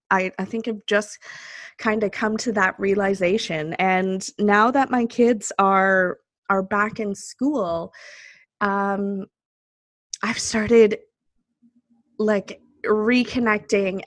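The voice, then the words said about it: Teary, emotional voice. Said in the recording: “I'm actually getting a little teary.”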